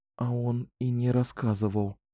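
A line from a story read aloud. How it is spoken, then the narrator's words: Whispered. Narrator (Russian): прошептала Кэлен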